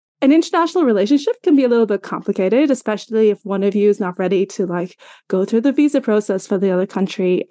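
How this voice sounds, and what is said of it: Irish accent. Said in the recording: “I'm from Ireland, in case you're wondering about my accent”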